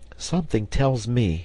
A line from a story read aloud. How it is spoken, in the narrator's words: cried Herbert